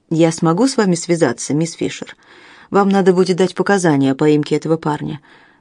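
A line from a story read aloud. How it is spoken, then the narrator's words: Plain. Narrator (Russian): сказал Джек Робинсон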